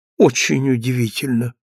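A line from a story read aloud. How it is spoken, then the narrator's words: Tiny child, barely audible. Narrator (Russian): произнесла крошка тихим, чуть слышным голосом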